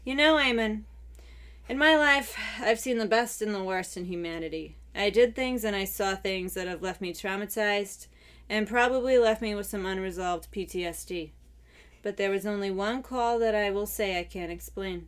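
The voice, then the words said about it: Mafia-style Godfather accent. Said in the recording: “This accent. ... I feel like he's in the mafia or something. ... The Godfather.”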